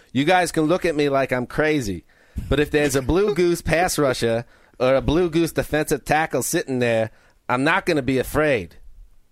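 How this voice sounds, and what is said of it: Put-on accent imitating another person. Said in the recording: “Pretty good accent, right? ... I wish you wouldn't use that accent.”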